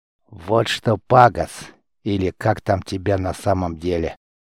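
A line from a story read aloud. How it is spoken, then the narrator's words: Through clenched teeth. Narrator (Russian): Дастр цедил слова сквозь зубы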